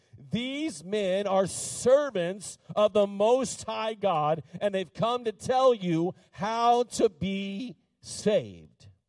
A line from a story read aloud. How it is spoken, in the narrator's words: She followed Paul and the rest of them, shouting